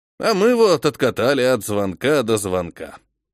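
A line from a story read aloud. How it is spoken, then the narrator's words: Smirking snort. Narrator (Russian): хмыкнул Михаил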